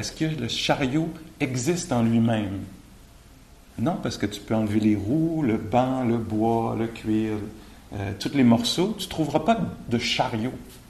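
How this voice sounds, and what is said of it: Québécois French accent. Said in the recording (French): “l'accent québécois, c'est mon accent”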